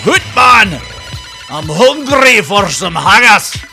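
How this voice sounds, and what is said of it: Bad put-on Scottish accent. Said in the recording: “That's a terrible Scottish dialect, but I can do”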